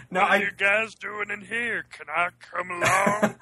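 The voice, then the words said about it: Imitated Armist character voice. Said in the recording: “doing the Armist voice”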